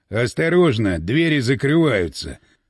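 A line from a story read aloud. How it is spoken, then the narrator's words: Mumbled. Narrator (Russian): пробормотал Гирин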